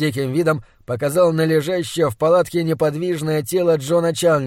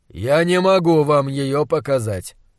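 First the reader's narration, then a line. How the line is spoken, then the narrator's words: Calm reply. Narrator (Russian): спокойно ответил монстролог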